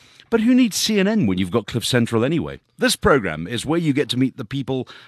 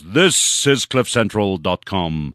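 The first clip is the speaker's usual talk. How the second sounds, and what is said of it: Mock news anchor announcer voice. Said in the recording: “In my best CNN voice”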